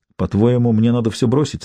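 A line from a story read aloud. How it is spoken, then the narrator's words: Plain. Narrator (Russian): спросил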